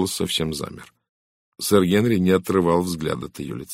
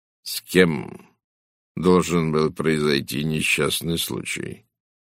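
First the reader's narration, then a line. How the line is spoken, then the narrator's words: Calm, careful question. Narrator (Russian): спросил он так же спокойно и осторожно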